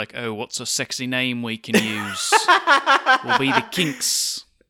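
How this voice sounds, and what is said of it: Imitates another person's voice. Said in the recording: “That was my Ray Davies impression ... it was spot on”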